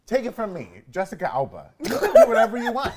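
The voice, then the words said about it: Impression of Jessica Alba. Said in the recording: “That was a perfect impression.”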